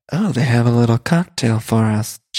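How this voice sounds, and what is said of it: Low, sexy imitated voice. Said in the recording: “like, low, sexy voice ... in like a very sexy voice ... Like a low, sexy”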